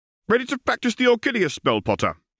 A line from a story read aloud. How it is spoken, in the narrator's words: called out